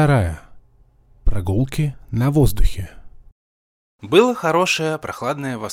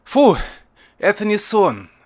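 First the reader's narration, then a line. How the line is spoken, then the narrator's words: Relieved sigh. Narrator (Russian): с облегчением вздохнул я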